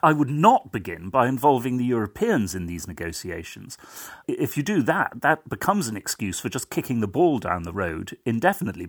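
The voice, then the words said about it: British accent. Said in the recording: “as you can tell from my accent, I'm not from here, I'm British”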